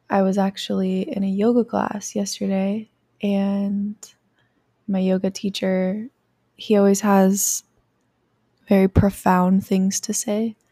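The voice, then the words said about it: Tired, sleepy-sounding voice. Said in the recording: “I am a little bit tired and my voice is probably a little bit sleepy”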